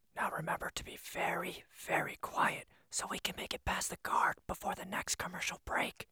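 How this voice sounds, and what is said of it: Whispered line. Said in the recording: “Here's a line in a whisper.”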